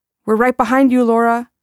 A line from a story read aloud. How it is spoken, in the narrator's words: I shouted